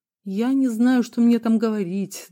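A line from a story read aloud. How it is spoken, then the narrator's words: Sighing. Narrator (Russian): Дронго вздохнул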